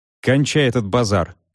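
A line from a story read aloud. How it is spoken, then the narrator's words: Sharp interruption. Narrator (Russian): резко оборвал я адвоката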